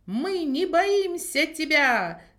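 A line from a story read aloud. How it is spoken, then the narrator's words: Shout. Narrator (Russian): закричал он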